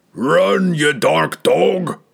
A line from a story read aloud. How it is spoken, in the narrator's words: roared the giant